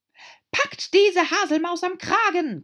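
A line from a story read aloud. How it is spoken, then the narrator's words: Shrieking queen. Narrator (German): kreischte die Königin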